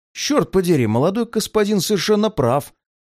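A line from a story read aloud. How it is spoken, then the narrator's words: Exclamation from behind. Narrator (Russian): воскликнул кто-то за моей спиной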